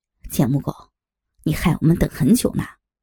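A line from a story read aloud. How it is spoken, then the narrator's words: Cold. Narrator (Chinese): 黄渤冷冷地说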